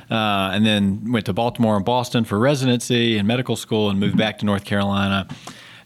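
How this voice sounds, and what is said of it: Southeastern North Carolina accent. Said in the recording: “I grew up in southeastern North Carolina, if you can't tell by my accent”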